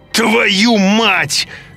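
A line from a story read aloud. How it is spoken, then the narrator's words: Screamed. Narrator (Russian): закричал я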